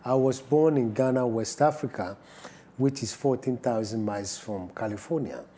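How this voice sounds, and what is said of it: British accent with African influence. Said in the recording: “as your audience can hear, and British accent and with the fusion of African language”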